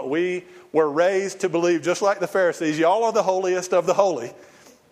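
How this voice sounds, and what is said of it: Southern American accent. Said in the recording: “From my accent, you'd guess it's a Southern Baptist church”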